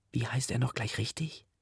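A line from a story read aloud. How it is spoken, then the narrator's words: Whisper. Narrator (German): flüstert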